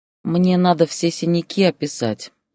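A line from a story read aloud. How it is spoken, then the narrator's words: Sighing. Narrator (Russian): вздохнула она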